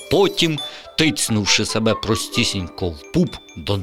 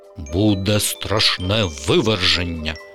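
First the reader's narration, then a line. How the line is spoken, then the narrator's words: Stern father. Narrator (Ukrainian): суворим голосом відповів тато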